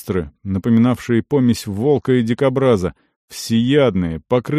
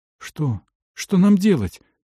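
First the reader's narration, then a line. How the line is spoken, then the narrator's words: Slightly trembling young voice. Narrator (Russian): спросил юноша слегка дрожащим голосом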